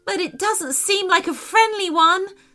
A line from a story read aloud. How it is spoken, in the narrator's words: screamed Sophia